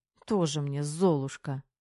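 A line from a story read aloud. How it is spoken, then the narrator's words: Scoffing snort. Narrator (Russian): хмыкнула девушка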